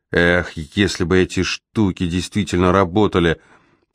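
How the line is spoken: Muttered. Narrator (Russian): пробормотала я

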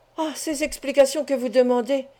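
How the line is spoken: Exclaiming. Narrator (French): s'écria Fourcy

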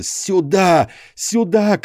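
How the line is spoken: Shouting. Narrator (Russian): кричал я

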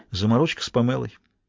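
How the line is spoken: Reply after deep sigh. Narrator (Russian): она глубоко вздохнула и ответила

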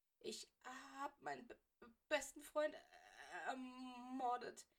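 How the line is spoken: Stammering toneless voice. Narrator (German): stammelte Weasley mit derselben tonlosen Stimme

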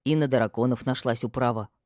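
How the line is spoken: Whisper in ear. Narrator (Russian): прошептал мне на ухо Ферди

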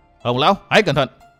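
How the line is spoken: Deep-voiced shout. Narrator (Vietnamese): Phí Thiên Cửu trầm giọng quát

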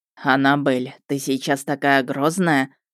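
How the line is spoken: Snorting. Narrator (Russian): фыркнул Ярый

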